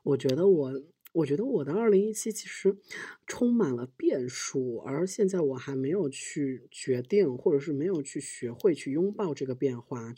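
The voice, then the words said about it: Speaking quietly, hushed voice. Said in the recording (Chinese): “我要说小声一点，我的隔壁的房客已经投诉我了”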